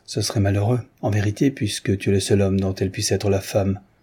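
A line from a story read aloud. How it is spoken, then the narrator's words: Curt repetition. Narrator (French): répéta sèchement Sabakine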